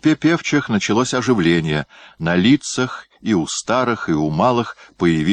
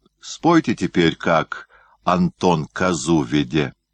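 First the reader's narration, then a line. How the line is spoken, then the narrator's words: Quiet, tired, breathless. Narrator (Russian): Иван Васильевич, тяжело дыша, тихо, устало сказал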